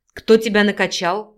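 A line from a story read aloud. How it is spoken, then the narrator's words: Growled. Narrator (Russian): зарычал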